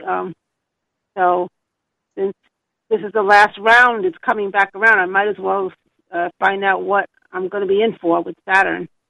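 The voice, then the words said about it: Thick New York accent. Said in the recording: “that lovely thick accent? ... Are you in New York? I'm in New York, in Queens County, Flushing”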